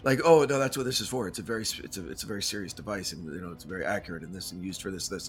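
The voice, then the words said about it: Put-on serious grown-up voice. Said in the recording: “my fake voice? ... My fake grown-up voice.”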